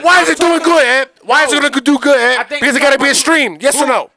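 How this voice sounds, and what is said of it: Screaming. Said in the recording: “You're screaming ... I can scream”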